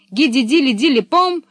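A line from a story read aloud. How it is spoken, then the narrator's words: Exclaimed. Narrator (Russian): воскликнула Пеппи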